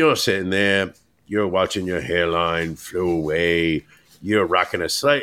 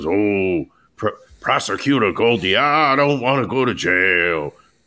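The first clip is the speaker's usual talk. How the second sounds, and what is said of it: Shifting mix of put-on accents. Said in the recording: “accent you you went between three or four different accents”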